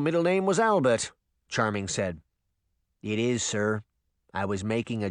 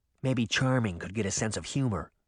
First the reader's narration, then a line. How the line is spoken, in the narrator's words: Sabrina whispered to her sister